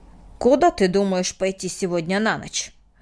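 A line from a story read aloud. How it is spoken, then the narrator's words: Sharp question. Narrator (Russian): резко спросил Мартин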